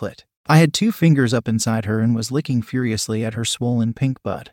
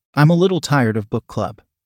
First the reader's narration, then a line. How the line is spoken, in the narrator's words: she said